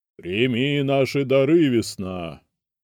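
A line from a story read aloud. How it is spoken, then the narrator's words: Loud. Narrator (Russian): громко произнес один из магов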